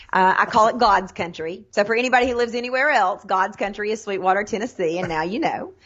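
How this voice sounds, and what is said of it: Tennessee Southern accent. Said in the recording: “born and raised in Sweetwater, Tennessee, which is a little bitty town between Knoxville and Chattanooga, hence the accent.”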